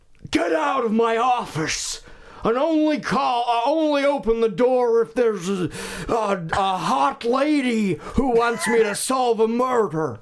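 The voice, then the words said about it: Nicolas Cage impression. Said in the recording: “my Nick Cage impression ... It's perfect. Never heard a better one.”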